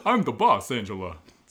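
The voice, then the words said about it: Impression sounding like Yogi Bear. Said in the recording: “every impression you do sounds like Yogi Bear ... It's still Yogi Bear.”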